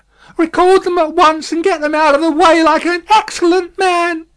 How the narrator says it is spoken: cried Miss Pross, still wildly crying

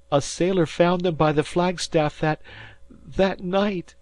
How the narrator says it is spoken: sobbed Mrs

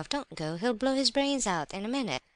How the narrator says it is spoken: cried Vera Lebedev, in a torment of alarm

